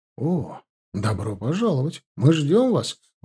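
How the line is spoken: Exclaimed. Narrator (Russian): воскликнул тот

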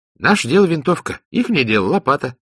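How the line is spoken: Cheerful answer. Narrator (Russian): бодро ответил Ахмаджан

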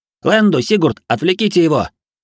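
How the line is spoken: Shouted reply. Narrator (Russian): крикнул в ответ Инь

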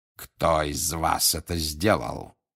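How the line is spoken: Growled. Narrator (Russian): зарычал он

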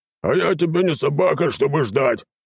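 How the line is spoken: Snapping retort. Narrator (Russian): огрызнулся он мне вслед

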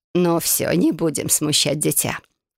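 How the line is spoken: Husky laughing. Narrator (Russian): хрипловато рассмеявшись, произнесла леди Вилара

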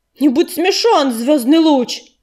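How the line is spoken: Growling. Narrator (Russian): зарычал Огнезвезд

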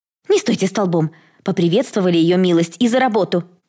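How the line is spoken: Sharp scolding shout. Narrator (Russian): прикрикнула управляющая

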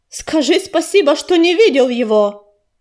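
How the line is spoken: Gravel barking. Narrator (Russian): рявкнул щебень

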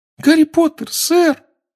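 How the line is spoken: Trembling squeak. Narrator (Russian): пропищал эльф, дрожа с головы до пят

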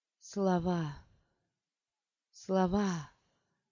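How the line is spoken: Mumbling. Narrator (Russian): бормотала она

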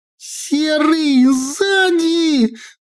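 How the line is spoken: Sudden shriek. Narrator (Russian): взвизгнула Наташка

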